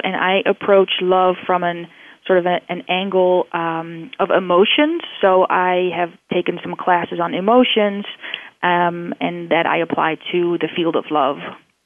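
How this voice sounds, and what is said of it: Slight Dutch-sounding accent. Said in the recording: “I hear a little bit of accent. Are you from the Netherlands”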